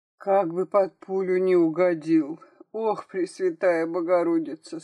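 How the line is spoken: Moaning. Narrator (Russian): стонала Наталья

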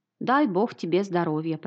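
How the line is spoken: Old woman muttering. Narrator (Russian): пробормотала старушка

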